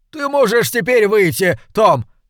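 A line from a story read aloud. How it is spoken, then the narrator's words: Shouted. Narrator (Russian): крикнул мэр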